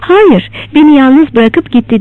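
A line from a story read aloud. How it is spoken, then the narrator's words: Laughing. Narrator (Turkish): Elen gülerek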